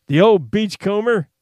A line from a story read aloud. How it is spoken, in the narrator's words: Lask Finiston cried